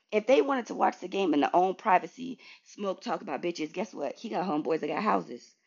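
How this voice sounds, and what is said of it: Hoarse, strained voice. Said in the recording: “my voice getting hoarse. I'm talking too much.”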